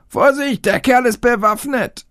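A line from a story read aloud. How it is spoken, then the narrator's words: Policeman shouting. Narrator (German): Der Polizist schrie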